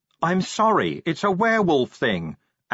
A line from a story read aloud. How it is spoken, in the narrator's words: Angua yelled